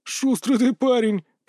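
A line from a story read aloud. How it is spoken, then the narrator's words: Laughing men. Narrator (Russian): посмеялись бароны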